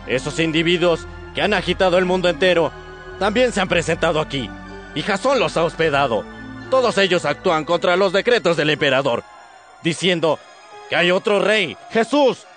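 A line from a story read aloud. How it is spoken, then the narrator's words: Angry group shouting. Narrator (Spanish): gritando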